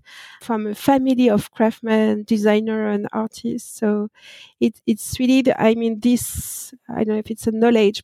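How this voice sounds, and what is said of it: French accent. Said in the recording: “I born and raised in France, that no doubt with my accent”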